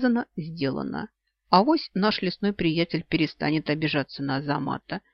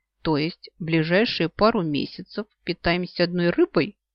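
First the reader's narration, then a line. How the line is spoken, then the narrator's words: Gloomy sigh. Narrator (Russian): уныло вздыхаю я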